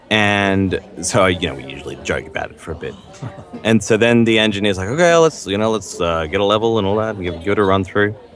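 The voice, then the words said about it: Australian accent. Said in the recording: “usually I'll just be talking with my Australian accent ... oh, you're Australian”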